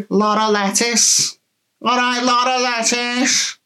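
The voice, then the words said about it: Put-on Scouse accent. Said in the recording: “In a Scouse accent ... the Scousers are going to kill you for that accent ... that's pretty much nailed on Scouse accent”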